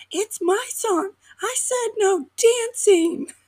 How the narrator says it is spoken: my youngest will be screaming

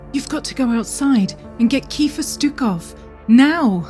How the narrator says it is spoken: She pleaded

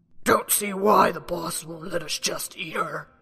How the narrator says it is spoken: one growled

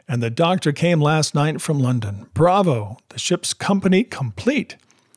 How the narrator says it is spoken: he cried

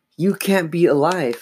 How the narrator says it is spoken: Chris exclaimed

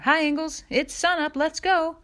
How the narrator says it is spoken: he heard him shout

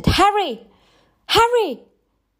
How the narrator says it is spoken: Like a mad woman shouted

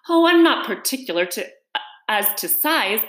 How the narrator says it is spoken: Alice hastily replied

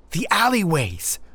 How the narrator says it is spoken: exclaimed

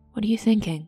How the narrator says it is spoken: asked softly

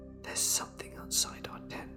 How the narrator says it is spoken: whispering quietly

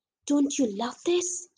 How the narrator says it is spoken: he whispered to me

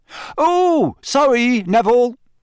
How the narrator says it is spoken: Fred shouted over all the laughter

